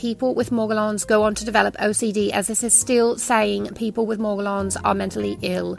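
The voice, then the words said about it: Bad put-on English accent. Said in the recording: “Was that the worst English accent ever? Kind of.”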